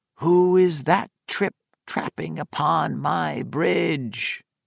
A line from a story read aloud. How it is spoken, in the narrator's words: Miss Davies spoke in the low, growling tones of the troll in the story